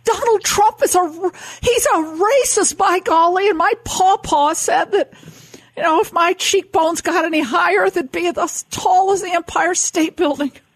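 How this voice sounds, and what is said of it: Elizabeth Warren impression. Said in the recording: “your Warren impression. It is fantastic.”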